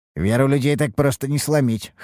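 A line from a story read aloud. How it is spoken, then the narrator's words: Smirking. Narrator (Russian): хмыкнул я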